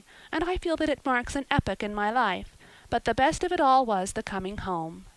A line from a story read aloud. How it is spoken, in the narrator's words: she concluded happily